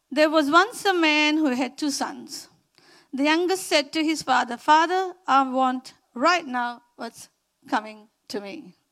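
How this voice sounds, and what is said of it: Indian English accent. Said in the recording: “my Indian accent”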